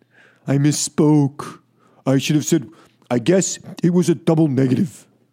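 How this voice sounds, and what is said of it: Poor imitation of another person's voice. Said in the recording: “bad Trump impersonation”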